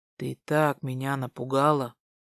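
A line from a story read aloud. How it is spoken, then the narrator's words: Whispered. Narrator (Russian): шепнул он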